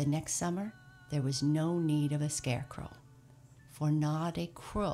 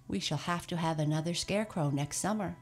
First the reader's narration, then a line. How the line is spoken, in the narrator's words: she said